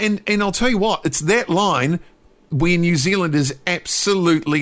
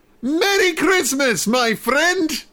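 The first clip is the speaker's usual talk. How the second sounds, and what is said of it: Faux German accent. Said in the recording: “in sort of a faux German Kim.com sort of accent”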